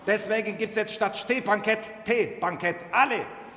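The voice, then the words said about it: Put-on Turkish accent. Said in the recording (German): “mit türkischer Akzent ist authentischer”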